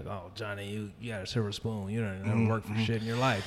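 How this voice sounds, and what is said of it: Imitates a blue-collar white guy. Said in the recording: “that's a good impression”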